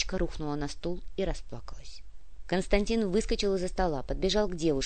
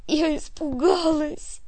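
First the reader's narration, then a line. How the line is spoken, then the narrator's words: Sobbing. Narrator (Russian): рыдала Леночка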